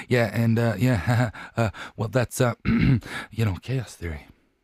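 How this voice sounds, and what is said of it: Poor Jeff Goldblum impression. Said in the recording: “That was my impression of Jeff Goldblum. ... It was pretty bad.”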